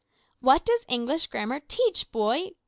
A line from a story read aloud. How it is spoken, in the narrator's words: cried the master angrily